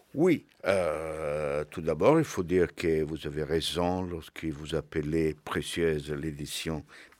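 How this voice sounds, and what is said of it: Italian accent speaking French. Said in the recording (French): “vous avez reconnu son excellent accent italien”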